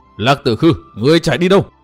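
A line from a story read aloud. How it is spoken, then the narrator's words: Choked, furious, echoing shout. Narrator (Vietnamese): Chàng uất hận đến nghẹn họng, hét vang cả núi rừng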